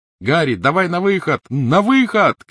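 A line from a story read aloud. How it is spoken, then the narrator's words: Shouting. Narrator (Russian): крикнул Рон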